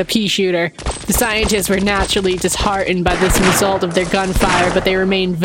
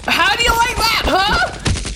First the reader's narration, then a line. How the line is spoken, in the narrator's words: Biff laughed